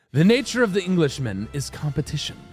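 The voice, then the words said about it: Put-on English accent. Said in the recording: “Your accent is hilarious.”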